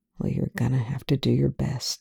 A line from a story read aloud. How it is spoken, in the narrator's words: says quietly